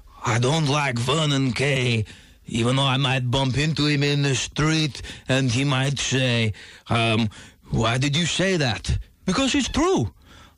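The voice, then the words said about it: Imitates another person's voice. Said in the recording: “That's an uncanny impression of me.”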